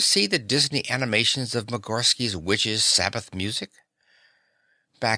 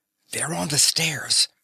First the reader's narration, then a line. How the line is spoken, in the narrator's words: Daisy whispered